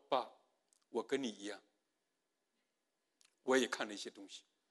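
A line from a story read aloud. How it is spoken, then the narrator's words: Crying son. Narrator (Chinese): 儿子在那里哭，儿子告诉爸爸说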